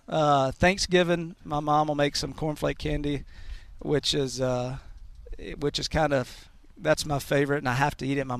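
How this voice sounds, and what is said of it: Southern drawl. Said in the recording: “That's a Southern boy right there ... It's not an accent. It's like a draw. He's got my favorite, like, Matt McConaughey thing going”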